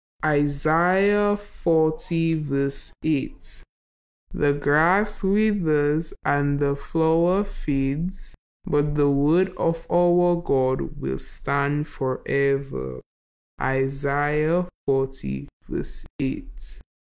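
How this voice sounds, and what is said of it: Speaking very slowly. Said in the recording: “we're going to say the verse really slowly... Let's try to say it slowly.”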